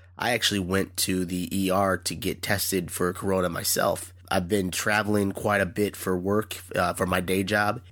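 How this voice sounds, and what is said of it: Sick, ill-sounding voice. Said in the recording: “you hear it in my voice, I'm a little sick right now”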